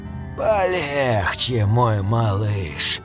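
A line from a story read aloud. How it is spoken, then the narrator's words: Hissed. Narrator (Russian): прошипел мистер Хокинс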